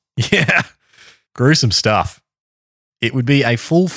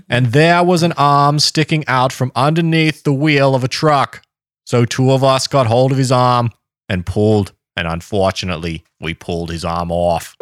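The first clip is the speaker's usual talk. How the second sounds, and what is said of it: Put-on Boston accent. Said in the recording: “This is a Boston accent. ... your JFK accent”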